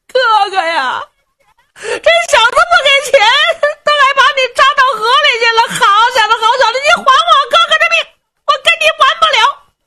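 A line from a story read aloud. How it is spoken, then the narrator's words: Crying. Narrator (Chinese): 这个掌舵的就哭了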